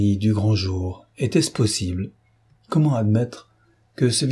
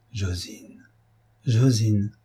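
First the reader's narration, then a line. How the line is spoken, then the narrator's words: Very quiet murmur. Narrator (French): murmura-t-il, si bas qu'elle ne l'entendit point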